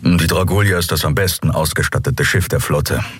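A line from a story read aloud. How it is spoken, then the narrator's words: Plain. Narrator (German): sagte er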